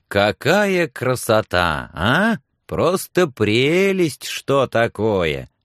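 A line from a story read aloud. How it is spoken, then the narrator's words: Delighted singsong farmer. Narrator (Russian): Нараспев восторгался фермер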